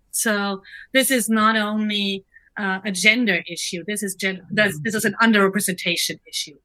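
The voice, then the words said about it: Non-native English accent. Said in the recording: “I'm the only one with a discernible accent that I'm not a native speaker of English”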